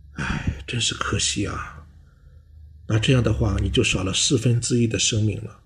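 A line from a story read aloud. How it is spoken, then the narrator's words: Sighing. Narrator (Chinese): 教授叹息说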